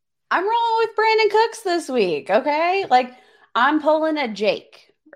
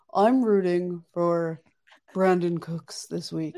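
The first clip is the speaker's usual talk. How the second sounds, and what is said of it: Imitates another person's voice. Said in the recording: “this is my best Jake impression ... That's not what he sounds crushed like in it. The slightest. ... You have a very deep voice, Jake.”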